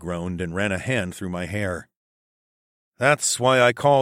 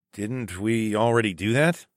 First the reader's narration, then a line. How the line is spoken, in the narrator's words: I asked